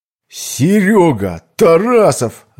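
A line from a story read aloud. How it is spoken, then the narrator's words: Shout. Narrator (Russian): закричал он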